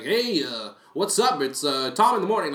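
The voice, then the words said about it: Commanding radio host voice. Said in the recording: “that commanding tone ... That's a radio voice.”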